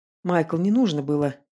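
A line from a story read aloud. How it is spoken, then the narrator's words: Failing to sound serious. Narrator (Russian): Пытаюсь говорить как можно более серьезным тоном, но, кажется, у меня плохо получается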